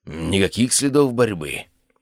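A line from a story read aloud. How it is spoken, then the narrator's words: Mutter. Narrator (Russian): пробормотал снайпер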